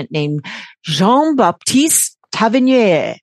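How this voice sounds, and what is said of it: Put-on French accent. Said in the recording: “I did that French accent? Did I do it good?”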